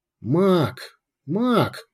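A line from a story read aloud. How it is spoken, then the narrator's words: Grumbled. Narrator (Russian): проворчал Урбек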